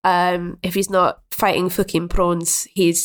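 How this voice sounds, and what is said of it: Poor put-on South African accent. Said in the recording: “that was my terrible South African accent”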